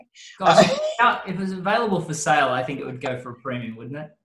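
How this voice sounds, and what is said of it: Australian accent. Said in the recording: “you're from Australia, either that or you've purchased that lovely accent.”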